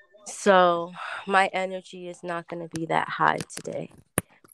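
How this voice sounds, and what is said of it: Sick, congested voice from a cold. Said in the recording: “I know I sound like crap. I'm sick. I have a cold.”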